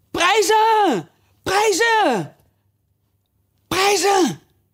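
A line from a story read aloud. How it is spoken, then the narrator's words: Crowd shouting together. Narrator (Dutch): het hele gezelschap riep door elkaar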